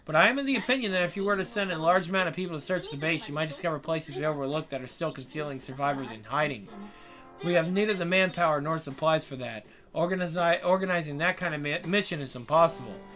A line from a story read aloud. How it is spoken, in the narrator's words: she quickly added